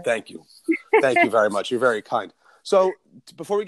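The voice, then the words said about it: Sick, bronchitis-affected voice. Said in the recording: “I have this bronchitis that's been with me for like 3 weeks now, which is why my voice sounds the way it is”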